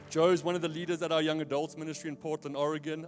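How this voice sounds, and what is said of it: Non-American accent. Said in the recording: “I grew up in Neisner, by the way. That's why I don't sound American.”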